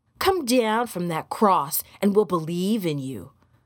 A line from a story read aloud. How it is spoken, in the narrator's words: said scornfully